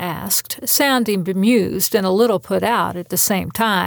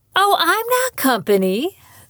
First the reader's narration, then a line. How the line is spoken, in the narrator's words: the woman exclaimed